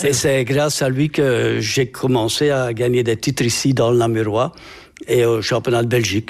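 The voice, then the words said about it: Regional Belgian French accent. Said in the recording (French): “je crois reconnaître à votre accent que vous n'êtes pas florennois d'origine”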